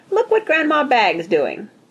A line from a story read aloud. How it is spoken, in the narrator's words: she said happily